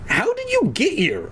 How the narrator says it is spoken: I cried, finding my voice

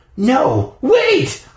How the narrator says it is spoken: I cried

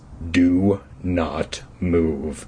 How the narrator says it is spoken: he uttered in a low growl

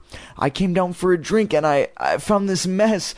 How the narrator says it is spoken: Chris said in a trembling voice

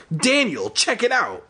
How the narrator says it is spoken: I exclaimed

